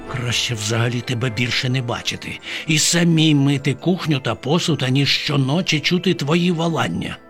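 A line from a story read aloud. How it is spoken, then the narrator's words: Muttered. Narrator (Ukrainian): пробурмотіла Бабаківна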